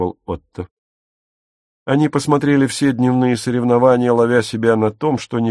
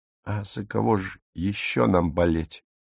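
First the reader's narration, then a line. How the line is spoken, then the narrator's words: Mumbling with full mouth. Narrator (Russian): с полным ртом прошамкала Дагмар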